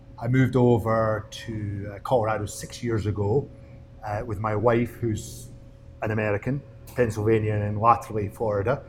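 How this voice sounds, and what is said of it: Scottish accent. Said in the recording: “As you probably recognize my accent, I'm actually not from Colorado, I'm from Scotland.”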